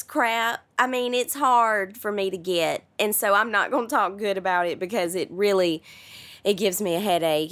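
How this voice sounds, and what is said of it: Non-American accent. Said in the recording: “I'll never be a standard American person, probably... I may always sound like this forever... Everybody loves the accent”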